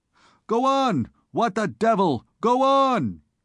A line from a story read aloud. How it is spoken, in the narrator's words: On recovering from his first stupefaction, he bestirred himself to shout